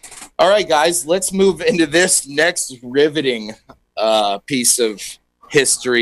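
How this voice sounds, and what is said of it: Usual voice. Nothing is said of it.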